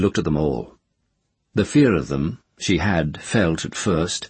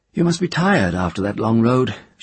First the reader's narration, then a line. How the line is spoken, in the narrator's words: she said